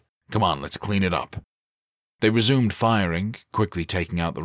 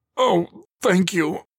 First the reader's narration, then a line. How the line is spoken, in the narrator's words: he croaked